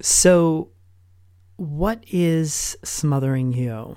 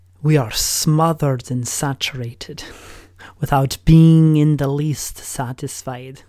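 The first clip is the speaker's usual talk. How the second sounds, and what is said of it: Attempted Irish accent, not convincing. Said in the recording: “I know that's not the Irish accent.”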